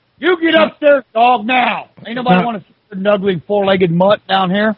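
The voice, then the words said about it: Yelling loudly. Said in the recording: “He's yelling at his dog. ... Are you yelling? ... I was yelling at BG”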